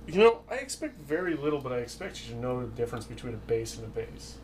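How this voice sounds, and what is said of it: East Coast American accent. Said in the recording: “my fucking East Coast accent”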